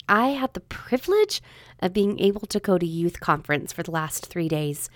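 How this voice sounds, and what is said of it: Hoarse, strained voice from a cold. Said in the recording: “I'm losing my voice a little bit... summer cold along with fun with the youth has sort of taken a toll on my voice. So I might sound a little funny”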